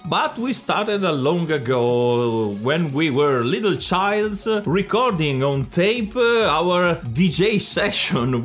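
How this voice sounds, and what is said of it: Thick Italian accent in English. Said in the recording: “So sorry if our accent is a bit thick ... we are not trying to be Italian stereotypes”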